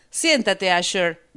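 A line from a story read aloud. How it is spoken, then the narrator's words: Shout. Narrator (Spanish): gritó Pandora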